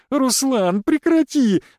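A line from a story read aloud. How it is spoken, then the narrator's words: Breathless, laughing. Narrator (Russian): выдыхала она сквозь смех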